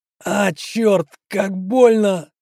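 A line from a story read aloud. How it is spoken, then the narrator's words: Howled in pain. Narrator (Russian): взвыл Саня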